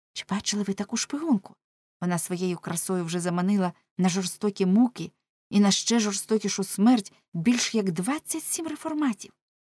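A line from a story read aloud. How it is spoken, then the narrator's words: Girls whispering secretly. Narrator (Ukrainian): дівчата шепотіли нишком між собою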